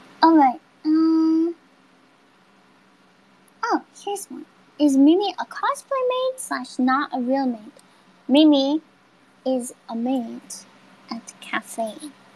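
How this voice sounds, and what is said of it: Sick voice cutting in and out. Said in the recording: “my voice is going in and out... This cold is really getting to me today.”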